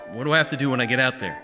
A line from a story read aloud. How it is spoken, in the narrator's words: He said nervously